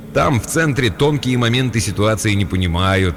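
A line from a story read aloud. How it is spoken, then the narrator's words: Almost cheerful. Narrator (Russian): сказал Джошуа почти радостно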